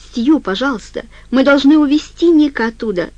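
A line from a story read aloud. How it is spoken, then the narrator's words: Woman shouting. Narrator (Russian): закричала Френ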